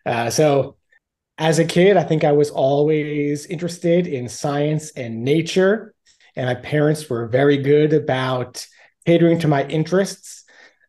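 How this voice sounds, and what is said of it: Long Island New York accent. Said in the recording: “I'm originally from Long Island, New York, in case you can't tell from my accent.”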